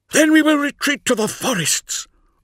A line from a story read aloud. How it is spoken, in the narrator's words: roared the third man